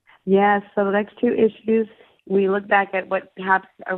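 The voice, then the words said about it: Crackly, hoarse recovering voice. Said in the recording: “apologize for my voice because it's still recovering from laryngitis ... it sounds sort of a little bit crackly”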